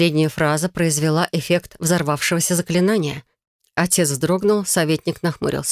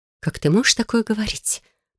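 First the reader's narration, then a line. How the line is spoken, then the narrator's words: Whisper. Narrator (Russian): прошептала она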